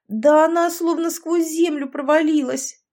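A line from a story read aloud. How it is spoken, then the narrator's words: Sobbing. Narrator (Russian): всхлипнула Александра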